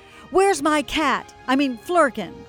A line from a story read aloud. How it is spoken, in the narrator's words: Captain Marvel yelled